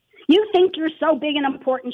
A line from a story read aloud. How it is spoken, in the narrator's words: she screamed at me